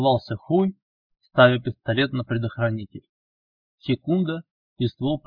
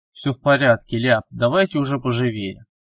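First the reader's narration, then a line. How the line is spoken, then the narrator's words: Slightly irritated, hurrying. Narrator (Russian): поторопил он их немного раздраженно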